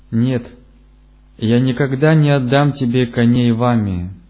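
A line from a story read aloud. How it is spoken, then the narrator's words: Shouting. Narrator (Russian): Царь закричал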